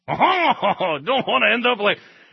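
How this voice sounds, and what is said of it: Put-on French accent. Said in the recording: “that's my French accent, which is why I won't use it ever again”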